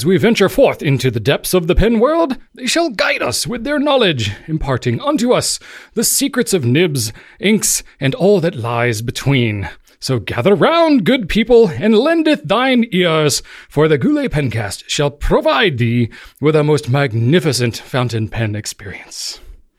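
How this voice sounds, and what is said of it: Put-on old-fashioned accent. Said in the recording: “I practiced that accent a little bit, and it was way worse. So that's the best I've done it yet.”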